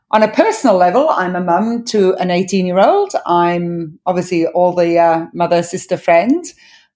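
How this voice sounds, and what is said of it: Mixed, hard-to-place accent. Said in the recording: “your dodgy accent”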